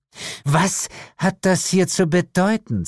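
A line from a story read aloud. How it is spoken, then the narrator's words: Hiss. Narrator (German): zischte sie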